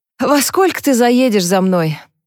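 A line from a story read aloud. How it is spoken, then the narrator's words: Sigh. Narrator (Russian): вздохнула Харпер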